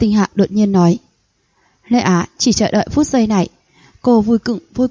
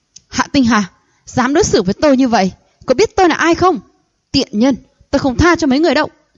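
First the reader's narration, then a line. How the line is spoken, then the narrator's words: Frantic furious shout. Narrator (Vietnamese): Thôi Anh phát điên hét to lên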